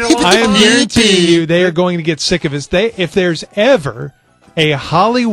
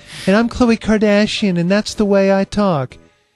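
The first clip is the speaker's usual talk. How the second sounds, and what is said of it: Imitates another person's voice. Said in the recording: “I don't have an extended Khloe Kardashian impersonation.”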